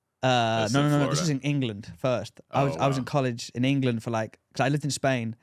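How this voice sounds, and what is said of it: English accent. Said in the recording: “Because you got the accent.”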